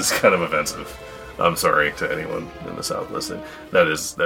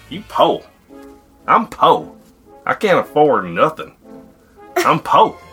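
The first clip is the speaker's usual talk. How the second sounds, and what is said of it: Put-on Southern US accent. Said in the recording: “Here I am again with my Southern accent.”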